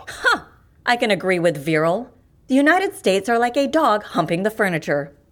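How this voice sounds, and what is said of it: American accent. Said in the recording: “You're American, aren't you? ... By accent, not by heart.”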